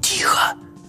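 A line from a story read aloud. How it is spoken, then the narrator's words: Whispered. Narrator (Russian): сказал я шепотом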